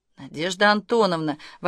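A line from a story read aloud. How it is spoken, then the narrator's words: Exclaiming in unison. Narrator (Russian): в один голос воскликнули Ольга и Агнесса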